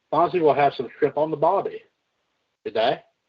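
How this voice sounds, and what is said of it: Bad accent impression. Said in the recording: “that was a bad impression.”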